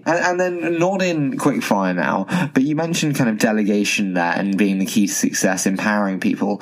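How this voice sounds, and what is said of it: English accent. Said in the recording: “your sweet English accent”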